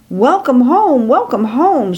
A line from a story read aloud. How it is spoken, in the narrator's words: excitedly shouts